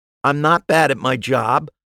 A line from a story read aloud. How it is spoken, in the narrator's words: I snapped